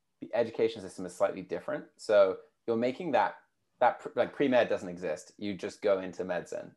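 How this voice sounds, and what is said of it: British accent. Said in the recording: “you can probably tell from my accent, being from the UK”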